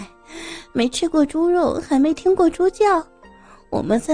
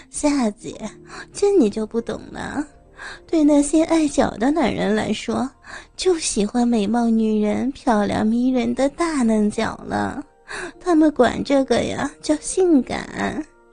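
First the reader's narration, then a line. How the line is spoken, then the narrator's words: Sly chuckling. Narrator (Chinese): 堂姐嘿嘿的笑了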